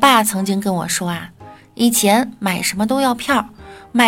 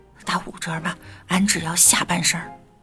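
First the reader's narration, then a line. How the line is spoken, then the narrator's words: Quiet voice. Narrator (Chinese): 那帅哥小声的说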